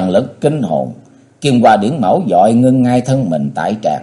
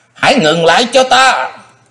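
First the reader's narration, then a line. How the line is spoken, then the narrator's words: Sky-filling scream. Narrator (Vietnamese): Phong Lan Quái Lão Vô Châu Kim Kiếm thét rộng trời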